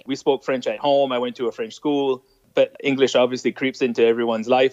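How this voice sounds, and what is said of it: Fairly thick French accent in English. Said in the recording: “I have a fairly thick French accent”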